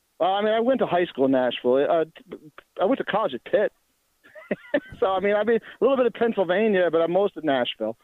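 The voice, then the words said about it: East Coast American accent. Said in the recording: “you don't sound like you're from Nashville ... you got more of an East Coast accent than a guy from Nashville”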